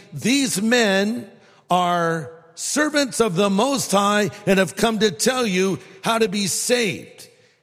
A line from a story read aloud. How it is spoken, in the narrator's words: She was shouting